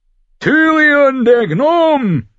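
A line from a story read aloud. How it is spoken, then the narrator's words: Roared downward. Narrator (German): brüllte er herab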